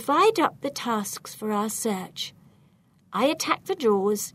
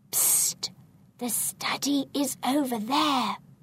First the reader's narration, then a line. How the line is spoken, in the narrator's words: Suddenly I whisper